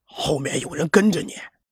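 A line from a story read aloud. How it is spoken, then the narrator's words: Low voice. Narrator (Chinese): 流浪汉…低声道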